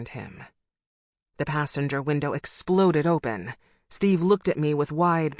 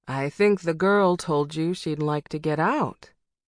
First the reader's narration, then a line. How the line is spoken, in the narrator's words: she said, her voice courteous